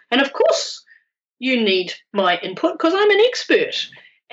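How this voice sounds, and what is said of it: Sarcastic delivery. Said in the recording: “I'm being sarcastic,”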